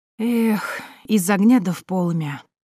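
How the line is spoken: Heavy sigh. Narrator (Russian): тяжело вздохнула Акулина

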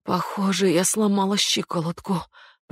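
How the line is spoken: Moaning. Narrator (Russian): простонала Гейнер

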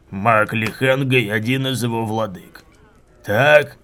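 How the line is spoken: Growl while chewing. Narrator (Russian): прорычал Куриан, грызя ребро

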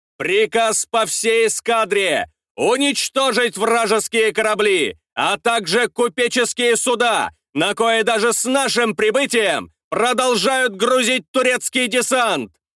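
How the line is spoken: Loud commanding. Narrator (Russian): громко распоряжался Нахимов

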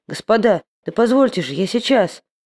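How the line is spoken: Dazed confused mumbling. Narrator (Russian): бормотал растерянный, оглушенный Буланин

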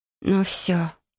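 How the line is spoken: Low voice through teeth. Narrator (Russian): процедила низким стилем

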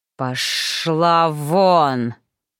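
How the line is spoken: Hissing dragon. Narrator (Russian): прошипел настоящий дракон

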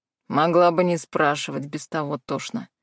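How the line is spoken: Grumbled. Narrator (Russian): проворчал

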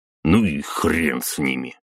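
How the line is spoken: Grumbled. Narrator (Russian): буркнул граф

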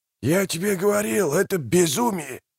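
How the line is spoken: Hissed. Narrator (Russian): прошипел слуга

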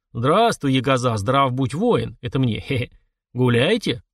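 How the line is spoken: Deep booming voice. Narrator (Russian): прогудел он

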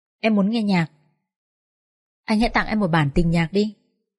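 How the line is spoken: Smiling, automatic speech. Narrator (Vietnamese): Mai Lan mỉm cười, cô nói theo quán tính

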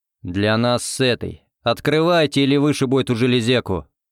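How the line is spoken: Growl. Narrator (Russian): рыкнул я

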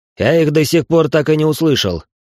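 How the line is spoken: Irritated bark. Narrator (Russian): рявкнул, поскольку он начал меня раздражать

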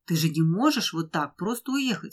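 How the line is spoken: Exclaimed. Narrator (Russian): воскликнула Ася

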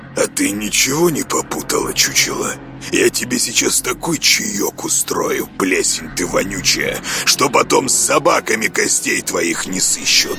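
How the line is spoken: Indignant menacing growl. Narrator (Russian): Начальник охраны для начала задохнулся от возмущения, а затем, с трудом взяв себя в руки, нехорошо осклабился и прорычал

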